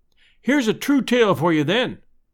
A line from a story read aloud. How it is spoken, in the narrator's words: I cried